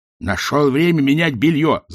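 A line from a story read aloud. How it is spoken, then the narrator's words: Growled. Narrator (Russian): зарычал Ринсвинд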